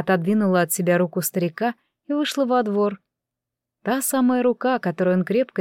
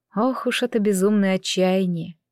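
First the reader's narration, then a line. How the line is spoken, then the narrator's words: Heavy sigh. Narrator (Russian): Тяжело вздохнула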